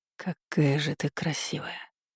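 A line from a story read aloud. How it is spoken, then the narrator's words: Whisper. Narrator (Russian): шепнул Аламейский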